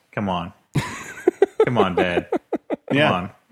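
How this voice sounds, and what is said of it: Imitates another person's voice. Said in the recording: “That's a pretty good Hudson impression you're doing.”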